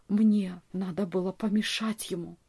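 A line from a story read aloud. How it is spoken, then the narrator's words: Whisper. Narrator (Russian): прошептал он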